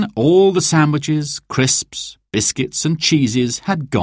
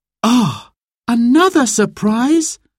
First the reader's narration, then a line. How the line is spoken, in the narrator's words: gasped Sarah